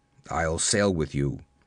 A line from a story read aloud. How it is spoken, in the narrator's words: he grunted